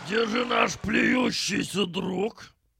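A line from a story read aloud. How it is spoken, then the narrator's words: Loud question, bear. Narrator (Russian): громко спросил медведь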